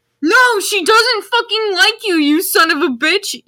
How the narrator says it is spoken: yelled Draco

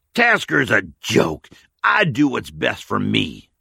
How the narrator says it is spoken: Carl sneered

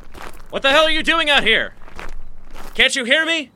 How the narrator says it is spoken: shouted again

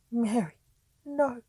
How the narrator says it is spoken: cried Sir Thomas

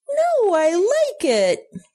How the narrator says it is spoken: cried, bouncing up and down

